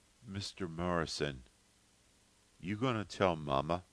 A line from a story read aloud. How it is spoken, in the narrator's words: Stacy asked huskily